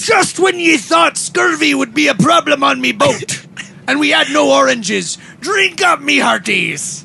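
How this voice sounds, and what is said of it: Put-on pirate accent. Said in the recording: “My pirate accent.”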